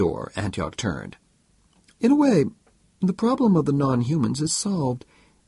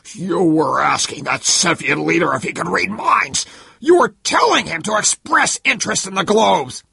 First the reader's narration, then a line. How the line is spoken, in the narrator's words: He spat out